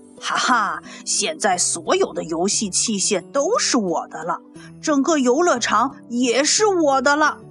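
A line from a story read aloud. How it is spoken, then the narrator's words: Excited roar. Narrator (Chinese): 兴奋地怒吼着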